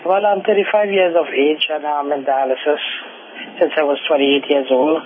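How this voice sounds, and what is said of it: Trinidadian accent. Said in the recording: “You have an accent. ... I'm from Trinidad.”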